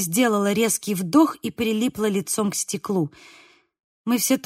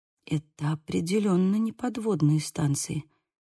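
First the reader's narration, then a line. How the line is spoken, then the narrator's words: Whisper. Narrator (Russian): прошептала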